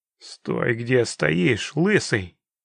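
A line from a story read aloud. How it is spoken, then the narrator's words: Menacing through teeth. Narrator (Russian): с угрозой процедил человек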